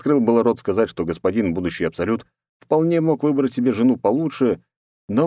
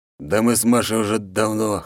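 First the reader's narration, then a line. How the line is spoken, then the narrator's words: Wry snort. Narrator (Russian): хмыкнул Архип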